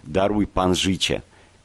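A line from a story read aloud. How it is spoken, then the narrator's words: Terrified trembling pleading. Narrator (Belarusian): Перапуджаныя да смерці, яны дрыжэчым голасам малілі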